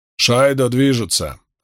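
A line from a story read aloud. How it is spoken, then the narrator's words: Curt, clipped. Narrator (Russian): отрывисто бросил Ган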